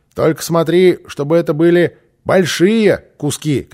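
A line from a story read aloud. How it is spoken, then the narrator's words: Shouted. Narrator (Russian): крикнул Босса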